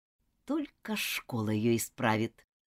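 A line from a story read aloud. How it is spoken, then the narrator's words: Angry muttering. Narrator (Russian): гневно бормотала мисс Скотт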